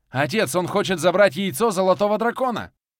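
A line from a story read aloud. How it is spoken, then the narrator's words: Anxious shout. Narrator (Russian): прокричал я, тревожно отслеживая таймер заклинания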